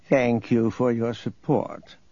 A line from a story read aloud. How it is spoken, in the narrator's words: Nereus purred